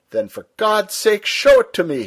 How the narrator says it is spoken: cried

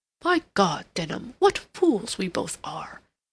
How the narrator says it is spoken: Rodney exclaimed

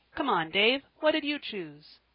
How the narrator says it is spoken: he cried

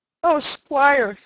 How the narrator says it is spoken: sobbed Mary

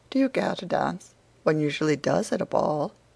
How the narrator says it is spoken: he said in a perfectly tranquil tone

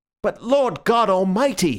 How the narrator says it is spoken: he cried out

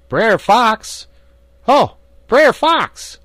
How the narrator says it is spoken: Brer Rabbit holler out

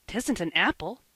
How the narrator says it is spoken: exclaimed Davy

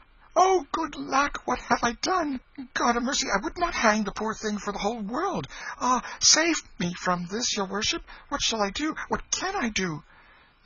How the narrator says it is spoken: shaking with fright, and cried out

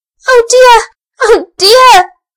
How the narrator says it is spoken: wailed Elsie

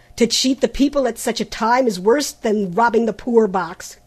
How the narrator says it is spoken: cried Trent angrily

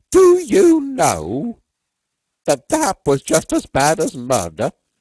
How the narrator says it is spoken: he said in a grating voice

